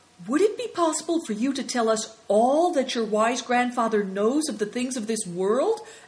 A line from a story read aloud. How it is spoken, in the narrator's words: asked Affliction eagerly